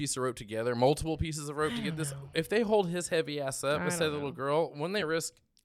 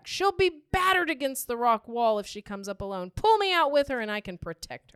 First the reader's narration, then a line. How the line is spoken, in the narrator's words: Matt, treading water while supporting Lucy, shouted back